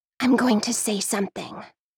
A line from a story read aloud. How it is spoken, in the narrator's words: whispers